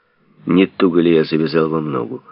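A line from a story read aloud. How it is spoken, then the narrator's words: Plain question. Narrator (Russian): спросил, наконец, Базаров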